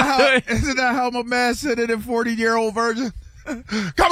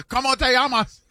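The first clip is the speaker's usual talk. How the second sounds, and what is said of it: Spanish spoken with Japanese-sounding accent. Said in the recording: “Why are you saying it like you're from Osaka?... Sudden your Spanish accent sounds like you're from Osaka.”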